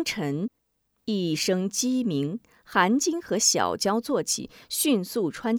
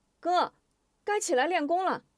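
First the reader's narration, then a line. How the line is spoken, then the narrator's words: Casual call. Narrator (Chinese): 韩晶顺嘴冲着西屋喊一声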